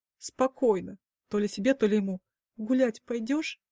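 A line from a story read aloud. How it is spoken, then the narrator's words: Whisper. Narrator (Russian): Прошептала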